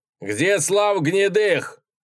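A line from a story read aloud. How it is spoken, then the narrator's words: Sudden shout. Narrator (Russian): закричал вдруг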